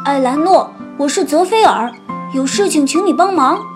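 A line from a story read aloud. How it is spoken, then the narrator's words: Calling out repeatedly. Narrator (Chinese): 连喊三遍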